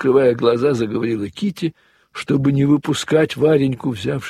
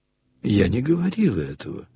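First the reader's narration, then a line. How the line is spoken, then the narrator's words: Calm. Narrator (Russian): спокойно сказала Варенька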